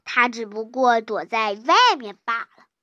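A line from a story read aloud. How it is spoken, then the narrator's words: Mocking tone. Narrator (Chinese): 猫带带嘲带着嘲笑的口气说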